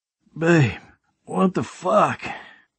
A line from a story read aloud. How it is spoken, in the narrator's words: I groaned out, my mouth dry as fuck